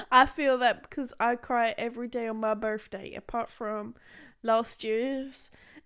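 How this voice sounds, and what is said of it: Put-on American accent. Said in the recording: “why am I going into an American accent?”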